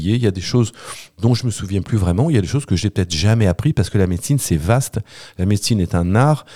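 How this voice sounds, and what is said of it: Usual voice. Nothing is said of it.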